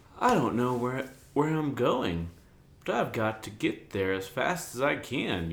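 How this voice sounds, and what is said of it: Stuttering old prospector character voice. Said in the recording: “apparently a stuttering prospector ... Colonel Sanders”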